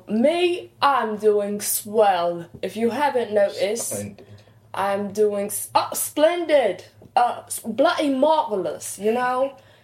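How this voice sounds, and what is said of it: Fading put-on accent. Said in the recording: “My accent is actually starting to dwindle a little”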